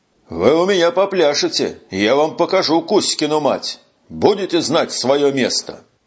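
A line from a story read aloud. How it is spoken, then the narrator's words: Growling. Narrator (Russian): зарычал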